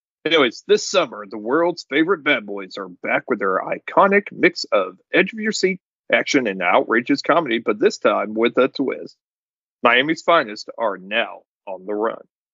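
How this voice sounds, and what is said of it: Announcer-style radio voice. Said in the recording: “That's my Casey Kasem. That's my radio voice,”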